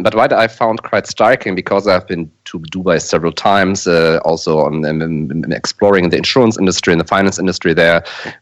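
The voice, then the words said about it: German accent. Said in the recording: “as my accent probably reveals, I'm from Germany”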